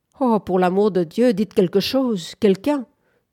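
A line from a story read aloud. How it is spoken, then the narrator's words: Angry shout. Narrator (French): cria Bunford d'une voix colère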